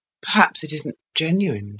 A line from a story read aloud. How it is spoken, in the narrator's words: faltered